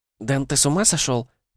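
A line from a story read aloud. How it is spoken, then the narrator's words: Whispered. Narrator (Russian): прошептала Шпора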